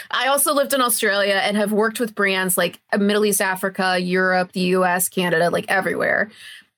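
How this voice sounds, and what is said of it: American accent. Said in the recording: “obviously you can tell from my accent ... I'm originally from the US, as if you couldn't tell a mile away, the way I'm talking”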